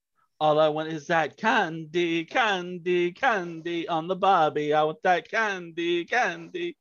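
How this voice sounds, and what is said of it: Sung in put-on Australian accent. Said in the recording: “sing to me what you think Candy sounds like. The more soul in it, the more points. An additional point for doing it in an Australian accent.”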